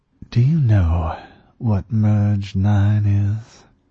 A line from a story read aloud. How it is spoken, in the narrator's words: She asked, a little unsteadily